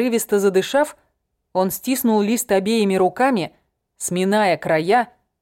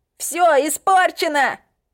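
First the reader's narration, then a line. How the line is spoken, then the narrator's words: Shouting. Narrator (Russian): Закричал он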